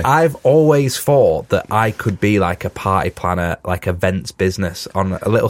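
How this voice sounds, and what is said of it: Congested, sniffly voice with a cold. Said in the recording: “I've got a cold, if you can't tell, from my voice.”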